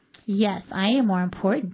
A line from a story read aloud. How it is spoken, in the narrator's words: muttered to himself giddily